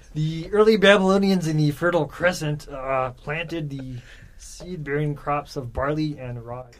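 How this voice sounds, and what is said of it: Nerdy narrator voice crossed with Kermit. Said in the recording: “When I do my Jared Diamond, I just combine Carl Sagan with Kermit the Frog. And it turns into Jared Diamond.”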